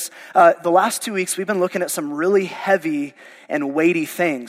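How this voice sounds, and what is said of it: Hoarse, fading voice. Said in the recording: “I am losing my voice because apparently I'm allergic to the state of Oklahoma ... it's really bad”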